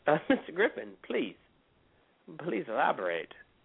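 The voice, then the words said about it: Put-on English accent. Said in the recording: “all of a sudden I'm getting English, and I'm serious when I start talking in an English accent.”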